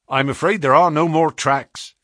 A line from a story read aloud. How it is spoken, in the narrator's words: said the inspector